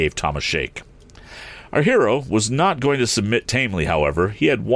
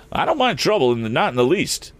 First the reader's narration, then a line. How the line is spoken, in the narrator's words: answered Eradicate cheerfully